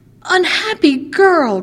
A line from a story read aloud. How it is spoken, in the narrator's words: cried Ali Baba and his son